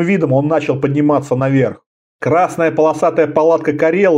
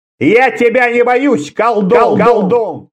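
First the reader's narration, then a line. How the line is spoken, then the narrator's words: Shout. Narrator (Russian): крикнул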